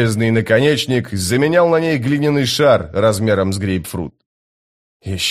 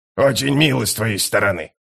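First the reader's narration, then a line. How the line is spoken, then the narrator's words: Mutter. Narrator (Russian): пробормотал скрипач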